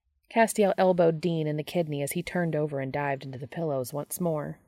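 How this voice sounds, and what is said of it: Usual voice. Nothing is said of it.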